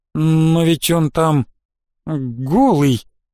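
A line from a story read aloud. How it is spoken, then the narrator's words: Strained, barely audible young woman. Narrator (Russian): еле выдавила из себя девушка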